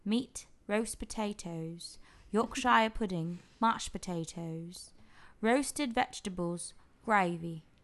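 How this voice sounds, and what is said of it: Put-on British accent. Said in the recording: “I should read this in a British accent.”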